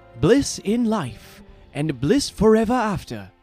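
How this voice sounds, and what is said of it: Put-on accent for a character. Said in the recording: “my terrible impression. This one was tricky. It was a bit of an accent I had to teach myself”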